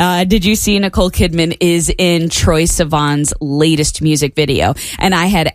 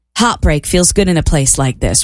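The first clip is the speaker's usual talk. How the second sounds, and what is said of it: Attempted Australian accent. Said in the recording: “How do you do an Australian accent? ... Was that it? That felt a little better.”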